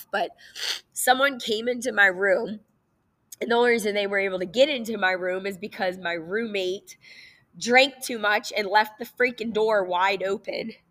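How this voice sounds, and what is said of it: Tearful, slightly off sick voice. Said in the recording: “I can't tell this story without crying ... I'm also sick right now, so my voice is a little off.”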